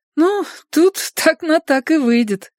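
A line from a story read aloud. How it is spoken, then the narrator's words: Laughing. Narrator (Russian): рассмеялась она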